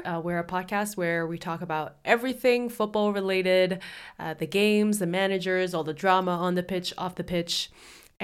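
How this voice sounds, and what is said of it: Congested voice. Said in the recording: “Please forgive my voice. I'm a bit congested. ... my voice sounds a little too sexy ... very congested.”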